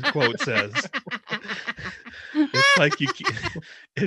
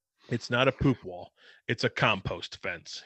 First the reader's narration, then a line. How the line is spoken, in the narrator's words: he says